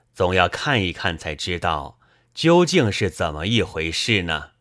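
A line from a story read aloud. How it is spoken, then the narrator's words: Sighing. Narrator (Chinese): 还叹息道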